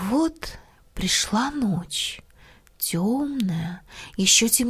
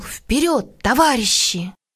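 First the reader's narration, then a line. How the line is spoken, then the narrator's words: Shouted. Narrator (Russian): Крикнул он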